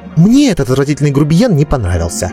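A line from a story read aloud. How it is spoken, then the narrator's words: Snorting. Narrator (Russian): фыркнула Катебри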